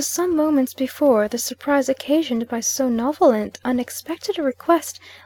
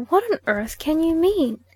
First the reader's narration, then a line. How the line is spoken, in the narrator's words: she at length exclaimed